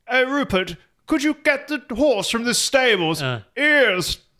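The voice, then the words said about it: Very posh English accent. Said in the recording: “There are some really posh areas where instead of saying no, they say, no, sorry, instead of saying yes, they say ears.”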